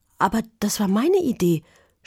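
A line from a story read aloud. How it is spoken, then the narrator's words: Stammering. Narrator (German): stotterte Juli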